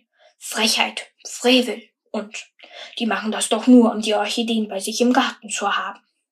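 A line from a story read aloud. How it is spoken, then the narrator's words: Murmuring crowd. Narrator (German): hörte die Leute murmeln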